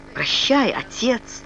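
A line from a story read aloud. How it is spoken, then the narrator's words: Trembling voice. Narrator (Russian): дрожащим голосом промолвил Ричард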